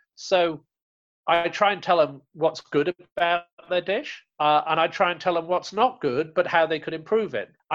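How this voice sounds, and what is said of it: English accent. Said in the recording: “with my English accent, maybe I sound more polite anyway. Maybe the accent helps”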